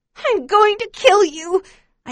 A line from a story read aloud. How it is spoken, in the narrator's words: I scream at her